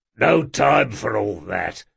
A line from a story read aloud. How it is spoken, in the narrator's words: growled Jean